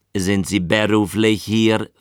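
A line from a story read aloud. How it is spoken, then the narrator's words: Plain. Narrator (German): fragte Gödowitsch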